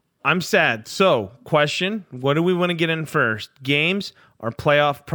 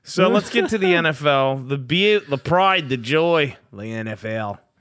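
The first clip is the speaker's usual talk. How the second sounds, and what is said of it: Put-on accent. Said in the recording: “I don't know why I went into that accent”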